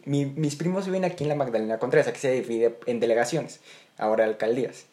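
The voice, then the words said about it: Mexico City chilango accent, sing-song. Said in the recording (Spanish): “Pues el chilango. ... Sí, se me marca mucho. Sí, dicen que hablamos cantaditos.”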